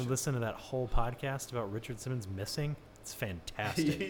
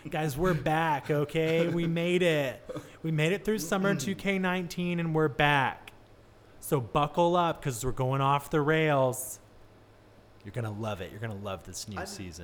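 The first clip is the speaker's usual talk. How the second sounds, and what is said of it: Imitates another person's voice. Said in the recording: “did a Richard Simmons impersonation”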